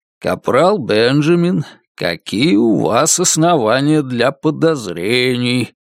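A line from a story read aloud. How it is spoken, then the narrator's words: Soothing, lulling question. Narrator (Russian): убаюкивающим голосом вопрошает Енох Рот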